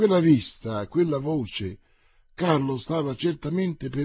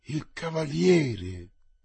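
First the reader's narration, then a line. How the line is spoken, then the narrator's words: Murmur. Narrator (Italian): mormorò Carlo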